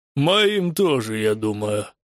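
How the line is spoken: Grumbling. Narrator (Russian): проворчал Меланек

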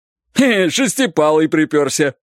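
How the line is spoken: Cheerful distant shout. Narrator (Russian): весело закричал кто-то впереди

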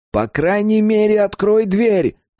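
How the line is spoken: Shouting. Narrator (Russian): крикнул он

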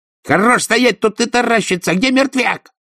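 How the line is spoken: Barked shout. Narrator (Russian): гаркнул Верткинс

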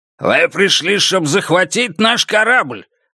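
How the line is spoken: Barked, machine-translated. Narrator (Russian): рявкнула цель номер два, а сеть перевела

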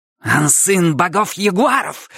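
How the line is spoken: Menacing growl. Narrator (Russian): грозно прорычала она

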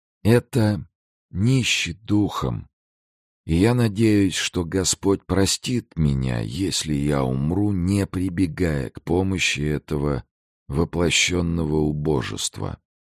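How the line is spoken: Whisper. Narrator (Russian): прошептал

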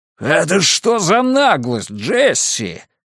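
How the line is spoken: Yelling. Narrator (Russian): заорал он

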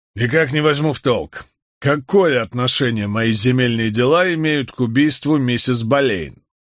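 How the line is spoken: Grumbling. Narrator (Russian): проворчал Вайтерингтон

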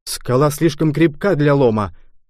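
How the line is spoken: Exclaiming. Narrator (Russian): воскликнул я

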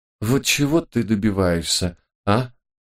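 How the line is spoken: Weary exhale. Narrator (Russian): Устало выдохнула Марта

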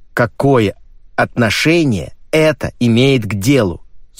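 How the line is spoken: Plain. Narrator (Russian): спросил мистер Лейзенби

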